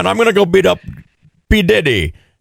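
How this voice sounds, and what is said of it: Put-on Jamaican accent. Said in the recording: “the Jamaican accent... My accent finally works.”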